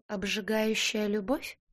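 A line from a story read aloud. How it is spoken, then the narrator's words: Uncertain question. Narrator (Russian): неуверенно переспросил Роу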